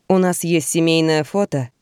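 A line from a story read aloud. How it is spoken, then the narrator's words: Plain. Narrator (Russian): говорит он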